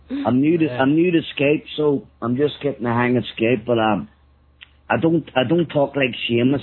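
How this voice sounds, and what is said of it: Thick Northern Irish Belfast accent. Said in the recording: “I've got a lot thicker accent than Seamus ... I think it's pretty manly accent you got going there ... Well, it's very thick ... I'm Northern Irish. I'm way up north in Belfast.”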